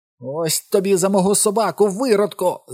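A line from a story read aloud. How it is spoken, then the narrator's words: Tearful shout. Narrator (Ukrainian): закричав Майк, навіть не помітивши, що з його очей полилися сльози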